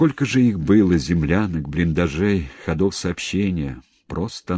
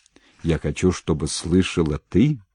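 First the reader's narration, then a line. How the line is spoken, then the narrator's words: Uncertain low bass voice. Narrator (Russian): подхватил неуверенным баском Васильев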